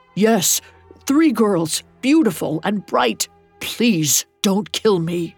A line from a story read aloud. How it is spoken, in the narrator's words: Timo sputtered